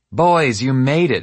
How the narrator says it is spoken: his mom shouted

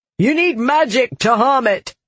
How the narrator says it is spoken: he shouted

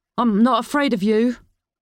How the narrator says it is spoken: the man shouted

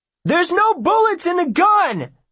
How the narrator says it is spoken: Will shouts

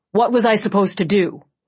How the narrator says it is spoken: Chubb snapped

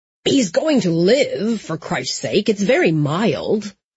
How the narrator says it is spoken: Matthias, who rarely had a hair out of place, sputtered

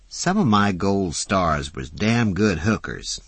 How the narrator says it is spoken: said Fauna

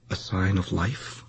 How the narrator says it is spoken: almost singing the whispered words, Dawn lightly inquired

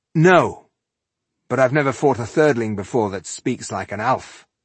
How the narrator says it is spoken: he replied crossly

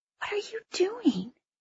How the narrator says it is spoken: I whispered

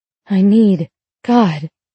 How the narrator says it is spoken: I gasp in his ear

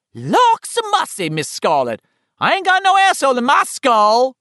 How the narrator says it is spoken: Richie screeched

